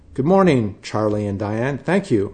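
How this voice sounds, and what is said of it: Chipper, authoritative news anchor voice. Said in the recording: “in my best morning anchor voice, chipper yet authoritative.”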